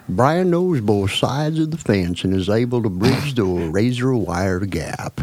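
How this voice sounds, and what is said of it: Put-on Texas accent. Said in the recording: “read my little part here with a Texas accent.”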